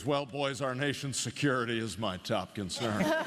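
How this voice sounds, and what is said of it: Imitates another person's voice. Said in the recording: “That sounded exactly like him. ... does a great impression of him, because if you've ever heard Adam West say anything, that's exactly how he sounds.”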